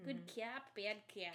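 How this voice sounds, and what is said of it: Poor put-on Boston accent. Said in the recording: “That's probably a terrible Boston accent. ... Was awful. ... it was pretty bad.”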